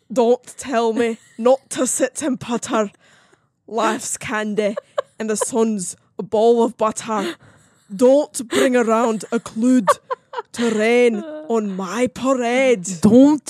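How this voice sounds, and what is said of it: Fake Scottish accent. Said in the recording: “this is such a fake Scottish accent... It sounds perfect to me... That's my Scottish accent”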